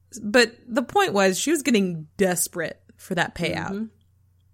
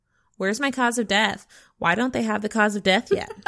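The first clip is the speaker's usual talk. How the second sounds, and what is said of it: Imitates another person's annoying voice. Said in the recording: “your Angie impression... I just assume she has an annoying voice”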